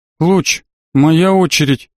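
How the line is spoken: Dull-voiced reminder. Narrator (Russian): тусклым голосом напомнила Марго

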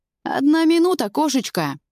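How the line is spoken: Cheerful shout. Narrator (Russian): Весело орёт Дима

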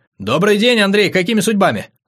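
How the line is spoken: Rapid chatter. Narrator (Russian): затараторил румын

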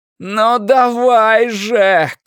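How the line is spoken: Shouted. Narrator (Russian): крикнул Стью

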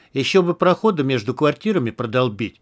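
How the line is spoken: Plain. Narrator (Russian): сказал Романыч

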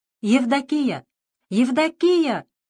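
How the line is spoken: Shouting old man. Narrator (Russian): кричал дед Агей, колхозный конюх

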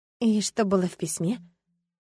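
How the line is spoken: Wary hoarse question. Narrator (Russian): настороженно спросила внезапно осипшим голосом

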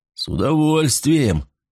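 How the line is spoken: Amused snort. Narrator (Russian): хмыкнул Фарнхолм

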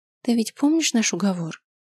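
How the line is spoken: Tender voice close to ear. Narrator (Russian): ласково произнесла она над самым моим ухом

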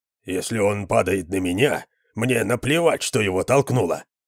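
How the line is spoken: Mutter. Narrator (Russian): пробормотал кто-то

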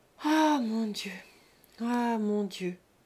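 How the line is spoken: Repeating with heavier sighs. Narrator (French): répéta Rose en soupirant plus fort

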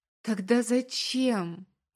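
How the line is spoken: Breathy, tearful. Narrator (Russian): Выдыхаю сквозь слезы

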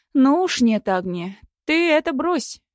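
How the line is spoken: Exclaiming. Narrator (Russian): воскликнула Лариска

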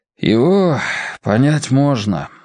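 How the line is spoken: Sighing. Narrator (Russian): вздохнул отец Евгений

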